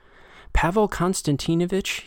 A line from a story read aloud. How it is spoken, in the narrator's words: pleaded